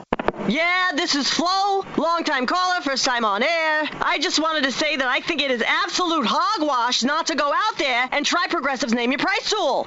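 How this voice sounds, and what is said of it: Sports talk radio caller voice. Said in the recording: “this is my impression of someone calling into Sports Talk Radio.”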